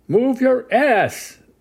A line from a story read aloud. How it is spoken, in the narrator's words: a man screaming